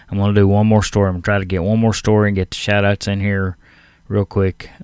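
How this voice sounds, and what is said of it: Strained, nearly lost voice. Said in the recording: “My voice is about gone, folks. ... my voice is about gone.”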